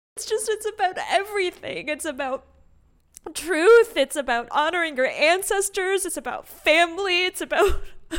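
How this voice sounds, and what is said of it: Exaggerated, deeply moved voice. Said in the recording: “doing an imitation of myself after seeing the Pixar movie, Coco”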